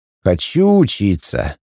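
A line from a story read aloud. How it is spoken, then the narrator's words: Sigh. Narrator (Russian): вздохнул Пятый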